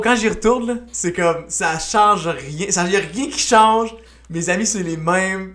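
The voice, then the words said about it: Old-fashioned rural Quebec French accent. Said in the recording (French): “J'ai un, un, vieil accent, je parle comme un fermier.”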